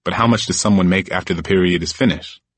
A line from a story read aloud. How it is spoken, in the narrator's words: I asked